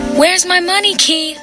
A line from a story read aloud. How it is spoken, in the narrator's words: She shouted